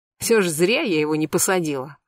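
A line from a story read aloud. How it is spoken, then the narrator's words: Wry snort. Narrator (Russian): хмыкнула Марьяна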